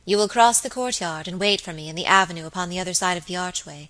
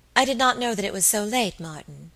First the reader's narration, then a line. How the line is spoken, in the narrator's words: said my lady, in that gentle tone which always won for her the willing service of her inferiors